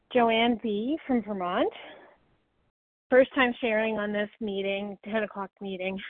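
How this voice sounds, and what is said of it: Out of breath, panting. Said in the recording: “out of breath. I was just exercising.”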